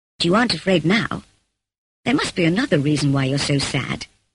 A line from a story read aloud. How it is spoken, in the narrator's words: he said, looking kindly at me